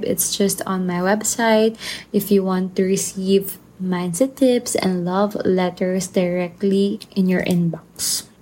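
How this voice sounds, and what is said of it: Soft, sleepy voice. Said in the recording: “my voice is softer than the rest of the episode. I'm actually quite sleepy since I'm recording the podcast at night. So my eyes are closing while I'm recording right now.”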